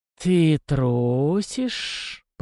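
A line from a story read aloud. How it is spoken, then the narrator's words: Lazy drawl. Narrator (Russian): протянул Шелест с линцой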